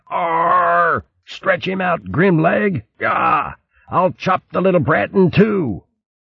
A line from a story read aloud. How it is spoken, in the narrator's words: The fox roared